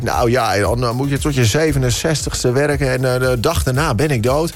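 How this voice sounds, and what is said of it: Put-on Drents Dutch accent. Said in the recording (Dutch): “Het zijn ook altijd die Drentse mensen die dat zeggen, inderdaad. ... Leuk accent.”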